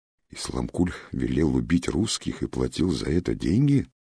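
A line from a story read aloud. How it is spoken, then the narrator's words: Elder muttering under breath. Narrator (Russian): забормотал себе под нос Аксакал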